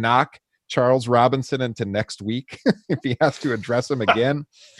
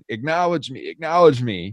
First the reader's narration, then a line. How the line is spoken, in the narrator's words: he's screaming